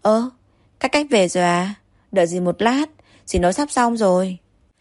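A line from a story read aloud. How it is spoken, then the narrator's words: Smiling. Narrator (Vietnamese): bà mỉm cười nói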